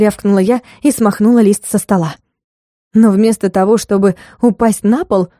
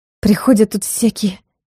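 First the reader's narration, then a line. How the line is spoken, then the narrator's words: Heavy sigh. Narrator (Russian): Тяжко вздохнула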